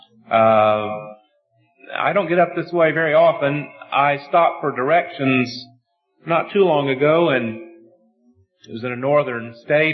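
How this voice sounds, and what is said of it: American Southern drawl. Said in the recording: “You're probably going to have to slow down your ears a little bit to keep up with my southern drawl.”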